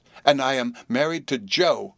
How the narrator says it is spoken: cried Biddy in a burst of happiness

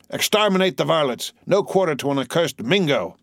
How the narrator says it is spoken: a voice near him shouting

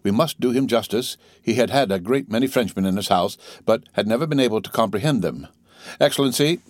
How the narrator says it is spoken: said he gravely

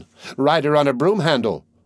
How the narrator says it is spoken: cried another

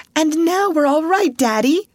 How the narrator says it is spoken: cried Ruth

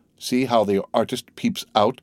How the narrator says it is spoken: exclaimed Madame Danglars

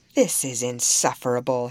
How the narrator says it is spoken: exclaimed

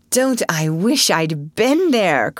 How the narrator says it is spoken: cried Joe

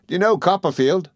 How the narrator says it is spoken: said Traddles, cheerfully

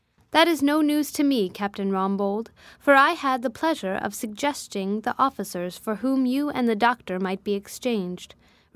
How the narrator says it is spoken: replied the host with a pleasant laugh

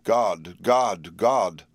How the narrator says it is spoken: Renfield had called out loudly several times

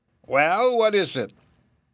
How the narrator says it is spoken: asked the rabbit sharply

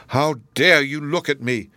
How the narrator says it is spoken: exclaimed Miriam with a start

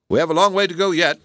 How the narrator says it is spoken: said

